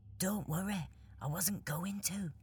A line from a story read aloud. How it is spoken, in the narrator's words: replied Mo, also in a whisper